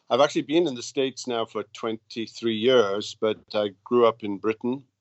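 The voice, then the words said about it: Welsh accent. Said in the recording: “as you can hear from my accent, I don't come from these parts ... in Wales”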